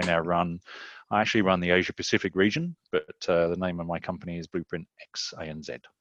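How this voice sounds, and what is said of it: Australian or New Zealand accent. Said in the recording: “the listeners can tell by your accent that maybe you originate from Australia or New Zealand”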